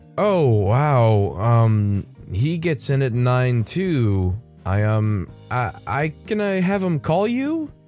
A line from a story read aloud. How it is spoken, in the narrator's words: He half-asked and half-pleaded